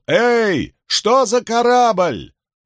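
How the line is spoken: Shout through cupped hands. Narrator (Russian): Кто-то из портовых работников сложил руки рупором и прокричал

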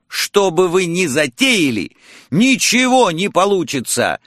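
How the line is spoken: Shout. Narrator (Russian): выкрикнул я

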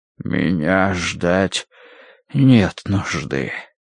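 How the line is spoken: Breathed out. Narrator (Russian): выдохнул Рош

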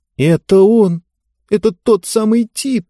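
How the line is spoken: Moaning. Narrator (Russian): простонала она

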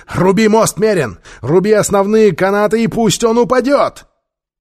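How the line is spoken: Shouting. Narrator (Russian): он крикнул

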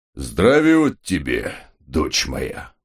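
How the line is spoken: Genial booming warning. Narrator (Russian): благодушно прогудел отец Пафнутий, как бы заранее предупреждая

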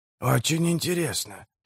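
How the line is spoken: Muttered. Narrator (Russian): пробормотал Поп Джой

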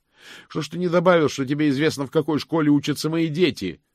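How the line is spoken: Shouting after someone. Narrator (Russian): прокричал он ей вслед

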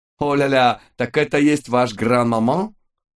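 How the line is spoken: Cheerful shout. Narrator (Russian): крикнул нам вслед жизнерадостный Луи

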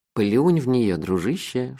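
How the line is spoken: Whispering. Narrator (Russian): шепнул мне Мелифара

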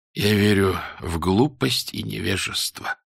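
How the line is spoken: Tired, smiling. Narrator (Russian): устало улыбнулся он

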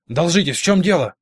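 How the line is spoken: Barked. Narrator (Russian): рявкнул Гор одному из 2 часовых, Чарли Весту

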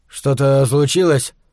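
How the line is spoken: Listless mutter. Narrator (Russian): вяло пробормотал он

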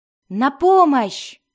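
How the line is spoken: Muffled shout through wall. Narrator (Russian): крикнул Келнос из-за разделяющей их сталагмитовой стены

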